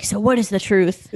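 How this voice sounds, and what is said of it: Imitated voice, sounds like Batman. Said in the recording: “my impression of Oprah like that. It sounded more like Batman.”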